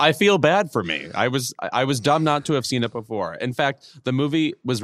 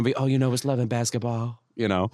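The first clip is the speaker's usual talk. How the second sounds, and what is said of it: Imitated celebrity voice, affected accent. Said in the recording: “with this like proto-Michael Jackson accent that he sometimes has ... what is this voice?”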